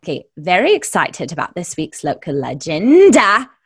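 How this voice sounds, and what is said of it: Moira Rose impression. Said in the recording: “I'm falling into accents too... that was a little Moira Rose there.”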